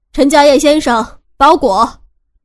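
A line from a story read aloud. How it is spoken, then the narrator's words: Loud shout from outside. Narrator (Chinese): 门外有人大声的喊着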